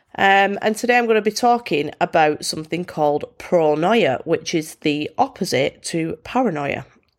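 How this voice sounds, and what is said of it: Congested, blocked-nose voice. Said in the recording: “excuse my voice... I'm a bit bunged up at the minute... I'm a bit of a snot rag”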